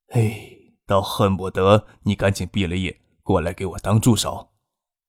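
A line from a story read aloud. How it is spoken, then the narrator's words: Sighing, then laughing. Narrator (Chinese): 汤学谦叹了一口气，笑着说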